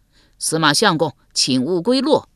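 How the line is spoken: Crowd shouting loudly. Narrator (Chinese): 百姓高声喊道

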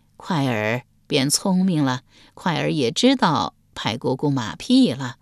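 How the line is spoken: Cheerful, laughing. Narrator (Chinese): 太皇太后笑语盈盈道

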